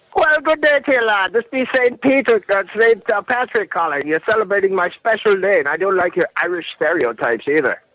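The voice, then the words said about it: Put-on Irish accent. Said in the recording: “I'm calling from Ireland, of course, with my bad accent ... I think it's pretty good. I think it's better than I can do.”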